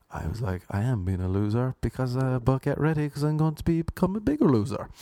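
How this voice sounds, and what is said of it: Irish Cork accent. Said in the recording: “I am from Cork. This is a Cork accent.”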